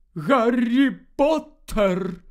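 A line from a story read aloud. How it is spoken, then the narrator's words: Deep trembling female voice. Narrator (Ukrainian): сказала професорка Трелоні глибоким тремтячим голосом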